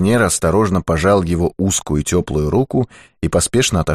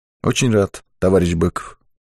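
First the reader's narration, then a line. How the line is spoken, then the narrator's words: Soft. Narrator (Russian): Ермаков мягко проговорил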